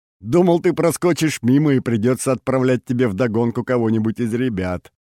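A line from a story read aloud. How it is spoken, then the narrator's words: Laughing. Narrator (Russian): рассмеялся Олег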